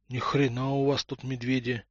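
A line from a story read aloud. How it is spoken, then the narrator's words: Weak numb-lipped whisper. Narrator (Russian): прошептал я онемевшими губами, из последних сил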